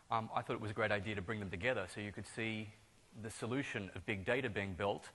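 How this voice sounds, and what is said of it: Australian accent blended with American. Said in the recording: “someone detected an accent. ... It's actually a hybrid. I'm Australian ... living in the US for about 4 years ... So it's a bit of a blend, but I don't fool most Americans, but I fool Australians.”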